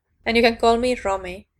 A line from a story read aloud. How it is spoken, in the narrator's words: Romy said